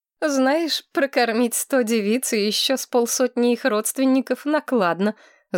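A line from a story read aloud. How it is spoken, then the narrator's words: Laughing. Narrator (Russian): засмеялась Маргарет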